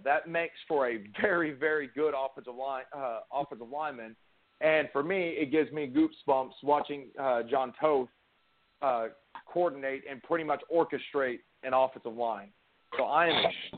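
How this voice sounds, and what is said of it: Excited, energetic voice. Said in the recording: “as you can tell by my voice, I'm extremely excited”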